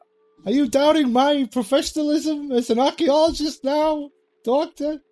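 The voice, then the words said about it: Strange squeaky character voice. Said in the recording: “It's the voice, isn't it? It's my voice. You think because I have a strange squeaky voice”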